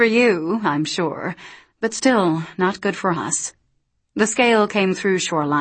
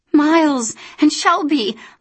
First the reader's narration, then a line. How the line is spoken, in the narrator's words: Luce gasped